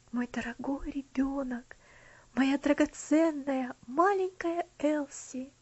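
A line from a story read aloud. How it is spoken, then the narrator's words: Tender whisper. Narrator (Russian): прошептал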